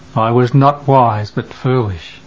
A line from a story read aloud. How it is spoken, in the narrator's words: Bartholomew comes, moaning